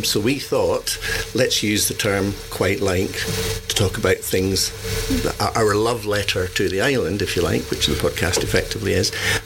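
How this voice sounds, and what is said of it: Scottish accent. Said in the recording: “Some of you might detect my accent. ... full Scottish ... Are you Scottish, then? ... It has been recognised.”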